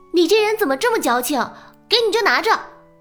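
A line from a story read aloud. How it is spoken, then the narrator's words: Loud, annoyed call. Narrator (Chinese): 玉星锤见他不领情，大声的叫住了他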